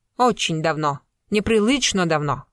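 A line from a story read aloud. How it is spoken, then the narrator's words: Dry and clipped. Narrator (Russian): мадам Дабль вновь говорила сухо и отрывисто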